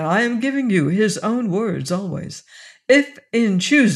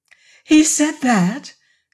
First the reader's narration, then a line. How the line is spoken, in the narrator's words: she cried